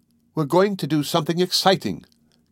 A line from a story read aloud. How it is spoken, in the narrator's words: Carol exclaimed to her new confidant, Vida Sherwin